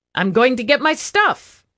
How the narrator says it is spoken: he cried

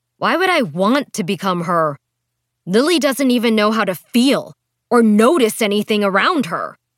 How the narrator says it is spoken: Rosie yelled back

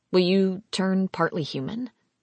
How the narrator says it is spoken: He chuckled

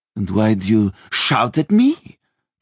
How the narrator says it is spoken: the lady asked haughtily

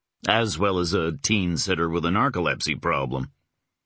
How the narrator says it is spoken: he responded dryly

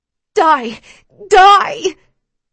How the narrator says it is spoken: Screaming at the top of my lungs, with all of my hatred

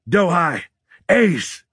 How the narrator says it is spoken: bellowed, straining to be heard over the gunfire

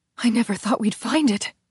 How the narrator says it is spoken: Gabriella said breathlessly

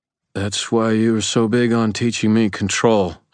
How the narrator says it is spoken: I slurred dully

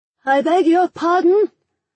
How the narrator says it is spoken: I shouted

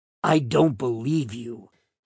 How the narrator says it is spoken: he responded in a raspy godfather-type voice

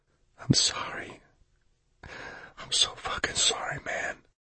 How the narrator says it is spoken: he whispered

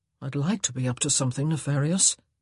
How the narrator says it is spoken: he muttered

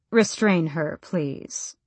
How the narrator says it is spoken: the duke said blandly, calmly, as if she were no more than a hysterical servant, as if she were nobody

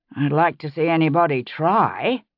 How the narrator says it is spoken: Bree said dryly

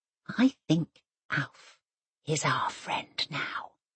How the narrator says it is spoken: she whispers

